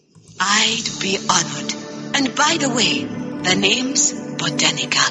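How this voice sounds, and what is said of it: Female voice with an unplaceable accent. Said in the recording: “she's got a bit of an accent. I'm not sure what it's supposed to be. ... Eastern European? ... I got the sense of either an African accent. ... I was thinking African too. ... But I also got a Star Wars alien accent. ... it reminded me a lot of the Kaminoans”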